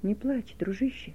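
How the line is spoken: Whisper. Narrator (Russian): прошептал он

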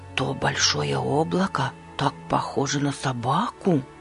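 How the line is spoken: Low voice. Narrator (Russian): вполголоса произнес Борис

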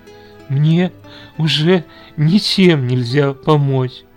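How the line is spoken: Sobbing, tearful. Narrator (Russian): Слезы безудержно побежали по лицу девушки, и она, всхлипывая, ответила

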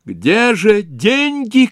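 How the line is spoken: Shouting. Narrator (Russian): кричала она

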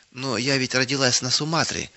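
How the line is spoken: Timid objection. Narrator (Russian): набравшись смелости, робко возразила она однажды

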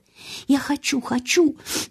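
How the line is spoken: Sobbing. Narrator (Russian): начала всхлипывать Мэри

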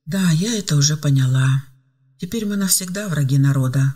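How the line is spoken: Sighing. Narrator (Russian): вздохнула Ева

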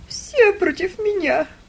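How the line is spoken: Tearful lament. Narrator (Russian): сквозь слезы причитала она

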